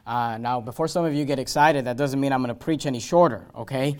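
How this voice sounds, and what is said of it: Hoarse, weakening voice. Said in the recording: “I'm losing my voice... If my voice starts getting too low”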